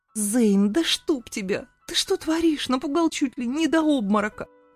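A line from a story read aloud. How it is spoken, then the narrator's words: Shrieked. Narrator (Russian): заверещала я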